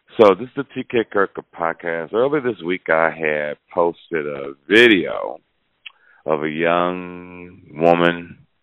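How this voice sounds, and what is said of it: Rough, congested voice. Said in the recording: “my voice sounds a little horrible... does something to my nose and throat, so it has to clear”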